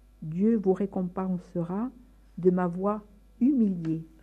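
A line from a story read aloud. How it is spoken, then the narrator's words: Plain. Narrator (French): répondit François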